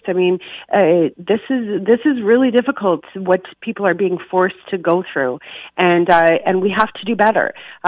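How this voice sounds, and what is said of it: Emotional, shaky voice. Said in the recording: “you can hear the emotion in my voice.”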